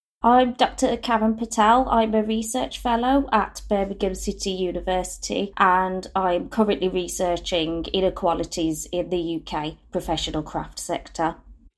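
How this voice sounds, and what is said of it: Birmingham accent. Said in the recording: “it's lovely to hear a Birmingham accent”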